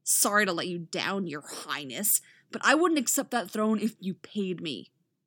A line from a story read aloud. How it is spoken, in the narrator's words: Roy snarls